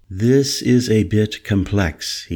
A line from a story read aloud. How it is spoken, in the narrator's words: he said